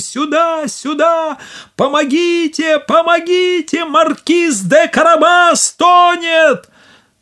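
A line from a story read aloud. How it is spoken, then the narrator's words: Shouting at full voice. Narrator (Russian): Кот закричал, что было мочи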